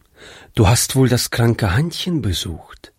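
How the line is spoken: Plain. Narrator (German): fragte seine Frau

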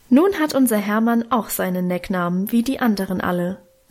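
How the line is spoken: Plain. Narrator (German): sagte Mutter gerade

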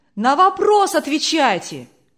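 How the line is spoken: Crowd shouting. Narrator (Russian): кричали из публики

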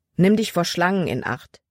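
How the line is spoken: Plain. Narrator (German): sagte er Libby

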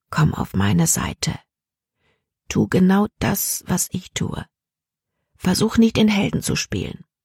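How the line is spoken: Quiet. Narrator (German): Caleb sagte leise

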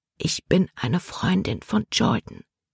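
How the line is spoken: Whisper. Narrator (German): flüsterte Libby

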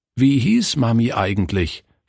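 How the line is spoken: Plain question. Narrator (German): fragte Günther

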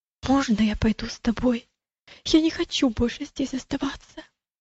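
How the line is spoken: Frightened boy, near whisper. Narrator (Russian): мальчик выглядел тоже очень испуганным и сказал почти шепотом

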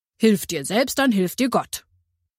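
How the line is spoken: Firm voice. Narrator (German): sagte mit fester Stimme

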